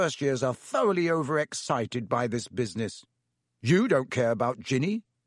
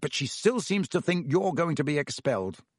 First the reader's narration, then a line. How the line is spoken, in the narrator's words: said Percy fiercely